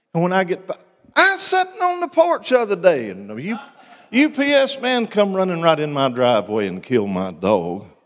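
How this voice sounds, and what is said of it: Melodic hill-country accent, wide pitch. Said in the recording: “if you're from the hills and the hollers, like where I'm from, your accent will carry a particular melodic tone ... You know how much of the scale I just used to express that?”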